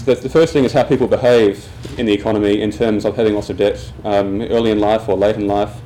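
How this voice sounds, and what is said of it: Australian accent. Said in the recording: “as you can hear from my accent, I'm Australian”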